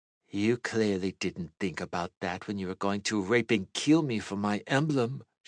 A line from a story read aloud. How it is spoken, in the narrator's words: she said coldly